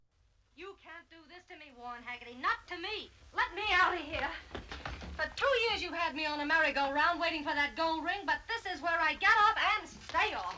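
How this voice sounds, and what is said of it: Rough, no-nonsense, distinctive accent. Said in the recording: “She kind of has this no-nonsense rough thing ... She has this very unique accent”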